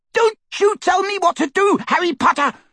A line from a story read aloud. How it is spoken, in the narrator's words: She screeched